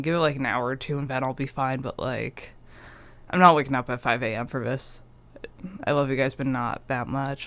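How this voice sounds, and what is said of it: Rough, ruined voice. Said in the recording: “I'm dying right now because of the pollen ... I just woke up, so my voice is just absolutely ruined right now”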